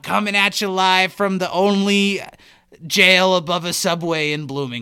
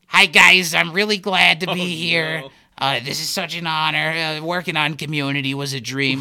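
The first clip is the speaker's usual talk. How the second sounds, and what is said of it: Imitates another person's voice. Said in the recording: “do a Jared Fogle impression.”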